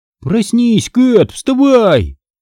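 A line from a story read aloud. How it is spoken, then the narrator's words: Yelling close by. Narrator (Russian): вопил кто-то у меня над ухом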